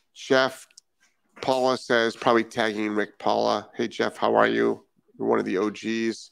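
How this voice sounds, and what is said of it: New England accent. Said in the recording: “your Massachusetts accent ... I am actually from Rhode Island. Rhode Islanders do not have Massachusetts accents”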